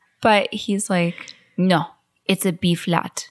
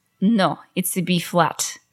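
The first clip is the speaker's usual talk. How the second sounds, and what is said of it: Put-on Russian accent. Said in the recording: “Wait, let me get my Russian accent.”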